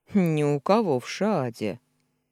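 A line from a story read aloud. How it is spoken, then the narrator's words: Stern reply. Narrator (Russian): строго ответил маг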